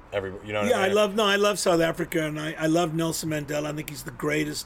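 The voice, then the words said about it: Distinct South African accent. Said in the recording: “a gentleman from South Africa as well, and you guys have that distinct accent.”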